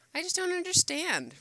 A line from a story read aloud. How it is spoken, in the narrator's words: Rodney exclaimed, frustrated